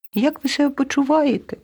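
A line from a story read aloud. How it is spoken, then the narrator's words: Squeaking. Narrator (Ukrainian): пропищала руда миша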